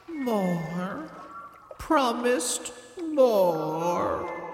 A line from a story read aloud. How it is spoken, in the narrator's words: she said sadly, her whole body submerged